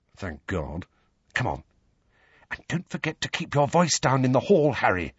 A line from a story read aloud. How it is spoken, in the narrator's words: Hermione whispered